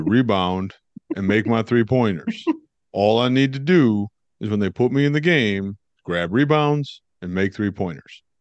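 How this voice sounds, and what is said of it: Impression of Dean Wade. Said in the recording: “have any of you ever heard Dean Wade talk? ... what do you give me on my Dean Wade impression? ... I'm going to give you a 7 for effort because at least you tried.”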